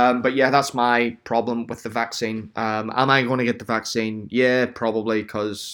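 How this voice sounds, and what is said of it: Usual voice. Nothing is said of it.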